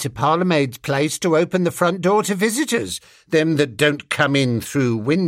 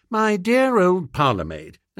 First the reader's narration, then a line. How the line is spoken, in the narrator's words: said